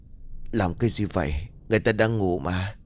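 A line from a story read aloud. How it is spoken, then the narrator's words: Drowsy sleepy question. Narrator (Vietnamese): Vì cơ thể vẫn còn thuốc mê nên Quân không thể mở mắt, bèn hỏi bằng một giọng ngái ngủ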